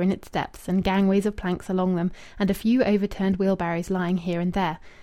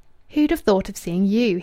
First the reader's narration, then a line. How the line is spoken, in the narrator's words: he exclaimed